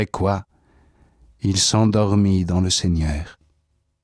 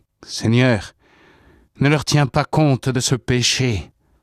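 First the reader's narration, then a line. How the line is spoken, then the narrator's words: Loud cry. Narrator (French): cria d'une voix forte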